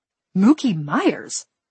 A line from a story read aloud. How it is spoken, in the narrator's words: Amy blurted